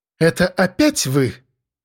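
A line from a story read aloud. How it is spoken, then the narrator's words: Displeased exhale. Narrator (Russian): Недовольно выдохнула секретарша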